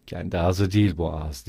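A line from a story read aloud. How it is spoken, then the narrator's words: Muttering. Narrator (Turkish): diye mırıldandı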